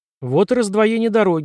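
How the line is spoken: Plain. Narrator (Russian): сказала Карен

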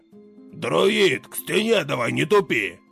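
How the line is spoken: Barked. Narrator (Russian): рявкнул Талгар

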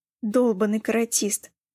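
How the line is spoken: Groaning, coughing. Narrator (Russian): простонал Кристиан и снова сильно закашлял

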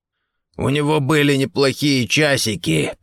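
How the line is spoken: Hoarse. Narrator (Russian): прохрипел Гордон

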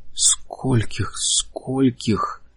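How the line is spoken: Breathless exhale. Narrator (Russian): выдохнул Лэри

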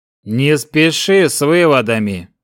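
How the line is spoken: Even, level tone. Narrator (Russian): ровным тоном ответил Старкс

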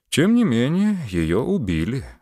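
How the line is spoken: Sighing. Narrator (Russian): вздохнул Муравьев

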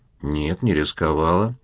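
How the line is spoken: Calm female objection. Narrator (Russian): спокойно возразила его собеседница

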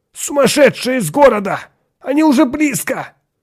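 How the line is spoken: Broken-voiced shout. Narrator (Russian): крикнул прерывающимся голосом Атон

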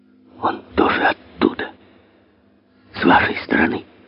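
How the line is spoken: Vagrant's whisper. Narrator (Russian): шепнул бродяга

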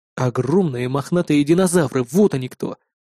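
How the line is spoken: Breathless exhale. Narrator (Russian): выдохнул я

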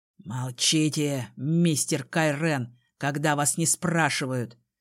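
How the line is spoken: Through gritted teeth. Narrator (Russian): Процедил отец

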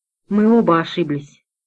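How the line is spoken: Quiet. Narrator (Russian): тихо проговорил Гавличек

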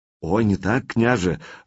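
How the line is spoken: Fervent whisper. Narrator (Russian): жарко зашептал в Олегово ухо старший ловчий

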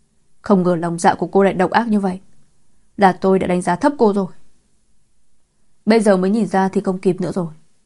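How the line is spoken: Furious, through gritted teeth. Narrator (Vietnamese): Ánh mắt cô ta đỏ ngầu giận dữ, nghiến răng nghiến lợi nói

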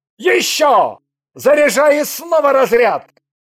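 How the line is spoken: Yelling. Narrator (Russian): Андрей заорал

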